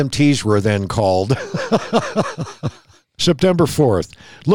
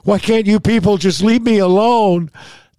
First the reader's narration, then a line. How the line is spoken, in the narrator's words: he began crying and screaming